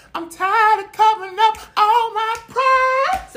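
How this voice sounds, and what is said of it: Singing in falsetto. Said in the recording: “Let me get in my falsetto.”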